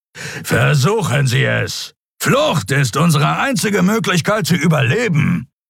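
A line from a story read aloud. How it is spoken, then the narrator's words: Growled. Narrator (German): knurrte Thron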